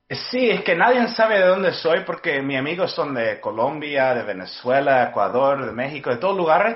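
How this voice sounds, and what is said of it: Unusual mixed Spanish accent. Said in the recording (Spanish): “Tienes un acento raro. O sea, como que ni de acá ni de allá, pero muy bonito.”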